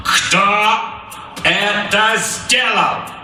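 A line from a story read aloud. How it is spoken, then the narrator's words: Loud, clipped, furious. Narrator (Russian): Громко чеканил Капрал, обводя зал налитыми кровью глазами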